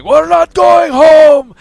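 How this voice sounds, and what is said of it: Russian accent, screaming, villainous. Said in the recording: “that Russian accent from Hudobin screaming ... It just sounds villainous”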